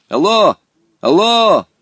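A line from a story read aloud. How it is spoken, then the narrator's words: Shouted. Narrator (Russian): крикнул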